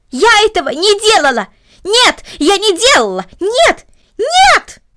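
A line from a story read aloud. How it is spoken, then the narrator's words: Loud screaming. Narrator (Russian): громко закричала Корнелли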